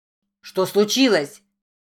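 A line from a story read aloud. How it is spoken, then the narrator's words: Shouted from another room. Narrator (Russian): крикнул из ванной Джейк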